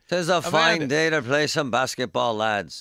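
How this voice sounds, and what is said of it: Put-on Irish accent. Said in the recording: “That's a pretty good Irish accent.”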